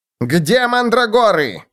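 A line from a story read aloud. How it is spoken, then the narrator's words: Shouting. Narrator (Russian): закричал Клоп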